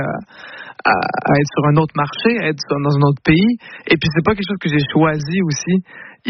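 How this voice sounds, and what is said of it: Québécois French accent. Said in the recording (French): “Est-ce que tu l'entends, mon accent québécois?”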